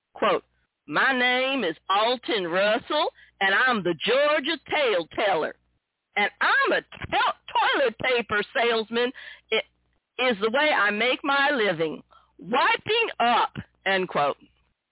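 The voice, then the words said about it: Mocking Southern US accent. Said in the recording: “I'm going to mock him a bit. I'm going to use a little southern accent.”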